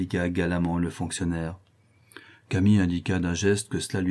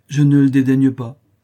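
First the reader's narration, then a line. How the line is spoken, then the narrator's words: Cold. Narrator (French): répondit froidement Camille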